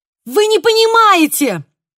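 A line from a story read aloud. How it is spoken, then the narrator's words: Shout. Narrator (Russian): крикнула я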